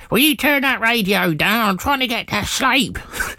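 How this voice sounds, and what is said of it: Silly put-on voice. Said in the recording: “Sounds just like my mum when I was younger... She doesn't actually sound like that. I don't know why I've done that silly voice.”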